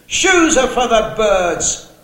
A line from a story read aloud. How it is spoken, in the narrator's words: With an old-fashioned expression he had heard his mother use, he yelled sarcastically over his shoulder